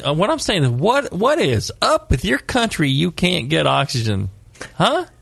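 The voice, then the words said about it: Put-on Southern American accent. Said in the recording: “I noticed you affected ... a little ... Southern accent right there for a minute.”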